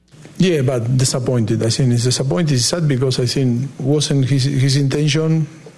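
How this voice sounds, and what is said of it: Foreign-accented English. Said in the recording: “disappointment sounds good with that accent”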